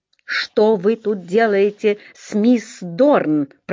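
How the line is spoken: Growl. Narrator (Russian): прорычал он

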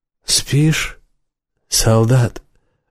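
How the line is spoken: Cheerful husky voice. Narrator (Russian): раздался веселый хрипловатый голос

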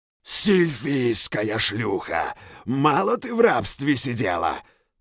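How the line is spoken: Growled. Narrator (Russian): прорычал Зойт

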